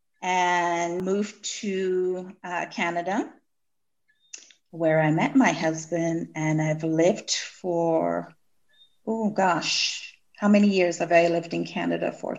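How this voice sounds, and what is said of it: Non-Jamaican accent. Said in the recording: “I detect an accent... That doesn't sound like a Jamaican accent.”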